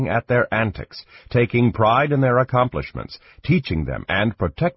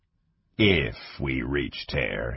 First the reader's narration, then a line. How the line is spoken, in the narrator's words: he said gloomily